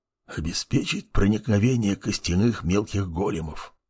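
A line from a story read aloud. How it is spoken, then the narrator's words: Old man's whispered reply. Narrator (Russian): прошептал в ответ старичок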